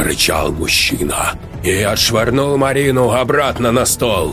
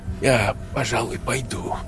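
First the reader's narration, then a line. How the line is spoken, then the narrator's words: Whisper. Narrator (Russian): прошептал парень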